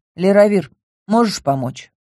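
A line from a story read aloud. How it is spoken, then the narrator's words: Sad question. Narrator (Russian): грустно поинтересовалась я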